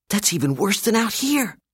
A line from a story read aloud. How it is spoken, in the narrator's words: Dave whispered